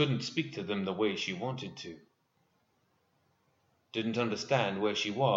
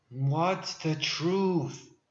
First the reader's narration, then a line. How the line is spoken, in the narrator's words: she managed to scream in the darkness of her mind